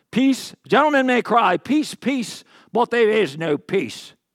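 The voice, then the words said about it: Briefly slips into a put-on accent. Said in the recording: “I don't know why that accent was in there. It just came.”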